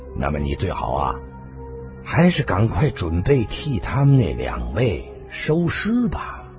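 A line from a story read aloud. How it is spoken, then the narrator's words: Flat, indifferent. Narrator (Chinese): 狄青林淡淡的说道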